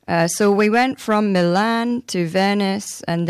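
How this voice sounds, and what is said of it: Usual voice. Nothing is said of it.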